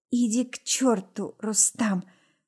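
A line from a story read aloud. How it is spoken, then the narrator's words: Insinuating, silky tone. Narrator (Russian): говорю вкрадчиво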